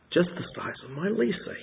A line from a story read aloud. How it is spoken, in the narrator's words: he muttered